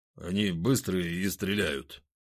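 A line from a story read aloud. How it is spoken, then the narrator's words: Muttering. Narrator (Russian): пробурчал Захар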